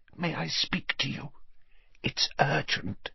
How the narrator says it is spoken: she said in a strained whisper

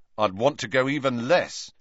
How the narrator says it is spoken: said Ron firmly

